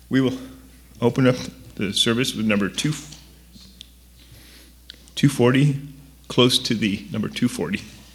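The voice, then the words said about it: Hoarse, nearly lost voice. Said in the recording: “Sorry, my voice is gone.”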